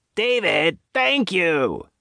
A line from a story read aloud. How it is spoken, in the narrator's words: Nadine shouted back down the hallway toward the phone